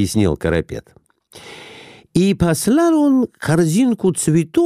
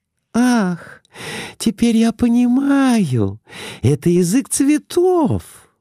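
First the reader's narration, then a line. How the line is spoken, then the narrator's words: Exclamation. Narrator (Russian): воскликнула Глафира Семеновна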